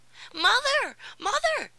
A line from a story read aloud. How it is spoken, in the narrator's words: cried Tom